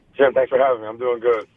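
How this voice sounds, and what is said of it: Slightly raspy voice. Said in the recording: “My voice is a little raspy from running around chasing kids all weekend”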